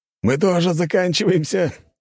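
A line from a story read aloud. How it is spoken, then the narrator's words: Warrior laughing. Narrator (Russian): рассмеялся другой воин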